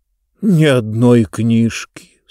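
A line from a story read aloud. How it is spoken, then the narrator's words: Sad. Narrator (Russian): сказал он печально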